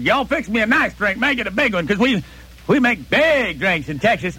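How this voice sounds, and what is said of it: Put-on Texas accent. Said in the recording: “I could put on a Texas accent”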